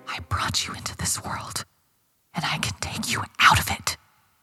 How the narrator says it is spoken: she whispered

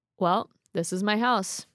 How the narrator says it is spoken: he said flatly

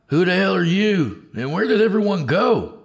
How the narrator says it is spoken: Tony hollered back

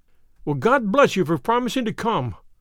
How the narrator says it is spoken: cried our client

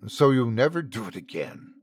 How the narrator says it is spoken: the judge hissed

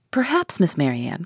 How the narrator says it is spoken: cried Lucy, eager to take some revenge on her

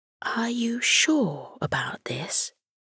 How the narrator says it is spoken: she whispered to Morty, still a little unsure as to whether he was crazy or simply adventurous

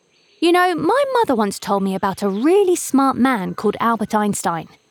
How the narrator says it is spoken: said

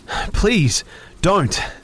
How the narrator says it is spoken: I begged, almost screaming

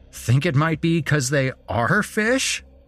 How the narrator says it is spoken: Chris laughed

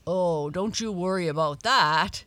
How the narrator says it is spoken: said Dawn with a laugh

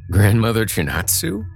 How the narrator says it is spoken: said and laughed

